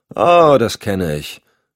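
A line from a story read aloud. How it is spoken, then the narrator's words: Deep heartfelt sigh. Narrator (German): seufzte die Maskenbildnerin aus tiefstem Herzen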